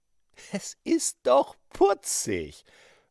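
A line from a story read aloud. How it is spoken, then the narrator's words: Man laughing. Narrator (German): lachte einer der Männer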